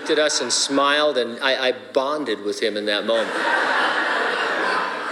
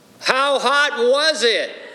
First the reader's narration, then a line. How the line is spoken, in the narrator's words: we yelled